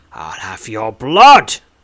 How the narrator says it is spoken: he grumbles

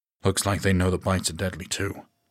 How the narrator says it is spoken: Troy murmured

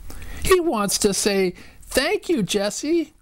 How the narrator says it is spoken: cried Violet

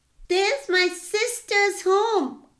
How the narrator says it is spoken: cried Nani

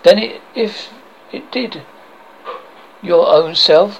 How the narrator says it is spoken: cried the elf mother shrilly

